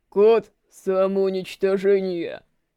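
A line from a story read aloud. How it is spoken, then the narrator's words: Deep bass voice. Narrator (Russian): Пробасил Волков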